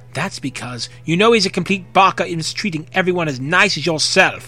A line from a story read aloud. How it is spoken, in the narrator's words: Makoto said fiercely